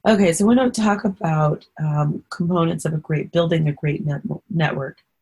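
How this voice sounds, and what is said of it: Hoarse voice. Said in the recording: “I'm sorry that my throat is so hoarse. I'm a little hoarse this today while I do this recording.”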